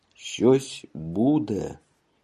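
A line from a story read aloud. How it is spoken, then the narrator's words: Frightened howling. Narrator (Russian): испуганно воет телеграфная проволока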